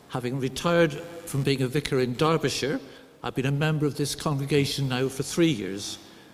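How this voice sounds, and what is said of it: Somerset English accent. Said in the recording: “my accent ... I grew up in Somerset”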